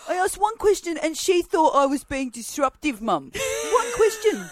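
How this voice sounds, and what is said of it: Put-on Italian or Sri Lankan accent. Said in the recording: “turn him into a little old Italian man? ... like something from, from some European background ... That's what he sounds like. Sri Lankan. They're my two accents.”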